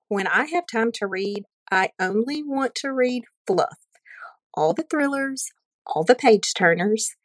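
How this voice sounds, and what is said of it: Southern American accent. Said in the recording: “Southern accents are different depending on your state, but your beautiful voice reminded me so much of going to college in Alabama”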